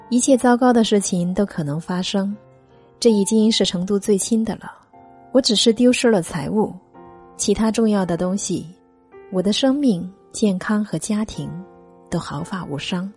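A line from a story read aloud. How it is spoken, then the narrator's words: Calm, indifferent. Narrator (Chinese): 他却只是淡淡的说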